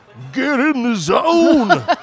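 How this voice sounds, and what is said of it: Sung rock-anthem commercial jingle voice. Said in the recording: “I started singing the Get in the Zone song. ... That's a good rock anthem. ... It's fun to do the voice.”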